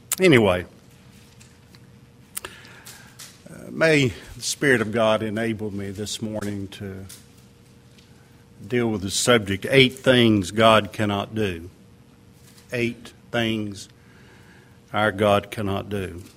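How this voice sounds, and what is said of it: Strong Southern American accent. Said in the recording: “I see you got that strong southern accent again.”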